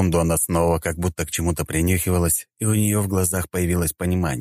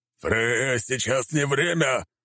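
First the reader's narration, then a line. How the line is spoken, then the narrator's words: Stern, threatening. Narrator (Russian): грозно начал Один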